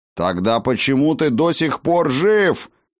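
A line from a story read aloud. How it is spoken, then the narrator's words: Fearsome bark. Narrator (Russian): страшным голосом рявкнул Хаген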